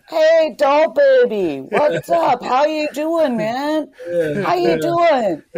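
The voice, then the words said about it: Put-on old-school Brooklyn New York accent. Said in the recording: “he still has like the total old school New York accent... he's like total Brooklyn, like New York guy”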